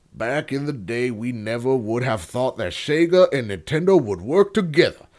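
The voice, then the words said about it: Put-on Western accent. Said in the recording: “I gave him a Western accent”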